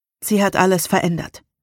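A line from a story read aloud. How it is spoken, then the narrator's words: Plain. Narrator (German): sagte ich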